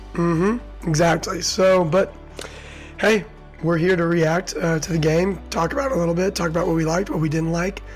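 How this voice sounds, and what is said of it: Hoarse voice from a cold. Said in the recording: “I'm nursing a little bit of a cold here ... my voice is coming and going”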